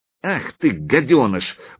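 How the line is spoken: Angry exclamation. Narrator (Russian): воскликнул он зло

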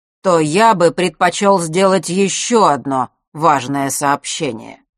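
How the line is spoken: Loud clear over noise. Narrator (Russian): перекрывая гул, неожиданно громко и четко произнес Астариус

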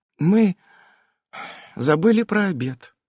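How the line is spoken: Sighing. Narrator (Russian): вздохнула она

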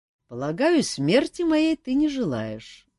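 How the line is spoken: Calm, smiling king. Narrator (Russian): спокойно улыбнулся король

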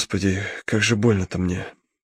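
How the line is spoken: Barely audible whisper. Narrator (Russian): Совсем тихо, одними губами прошептал он

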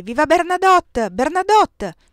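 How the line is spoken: Scattered crowd shouts. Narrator (Italian): si levarono alcune grida isolate

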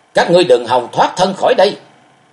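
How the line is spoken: Enraged roar. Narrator (Vietnamese): Máu nóng trong người sôi lên, Thạch Mộng gầm to

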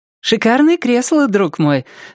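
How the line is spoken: Cheerful girl. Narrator (Russian): весело обратилась к нему какая-то девушка

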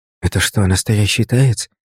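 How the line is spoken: Curious childlike whisper. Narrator (Russian): прошептал Сашка с детским любопытством

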